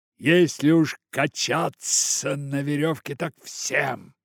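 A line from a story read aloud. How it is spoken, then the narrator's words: Shout. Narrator (Russian): крикнул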